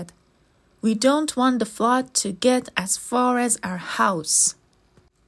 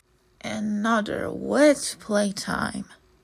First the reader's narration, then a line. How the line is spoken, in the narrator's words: sighed Chip